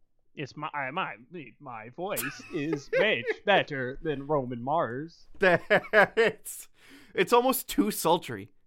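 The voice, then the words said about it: Imitates another person's voice. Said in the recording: “my Roman Mars impression ... I was having a hard time telling you two apart ... very good”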